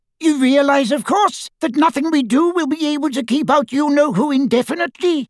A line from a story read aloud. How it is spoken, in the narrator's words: squeaked Flitwick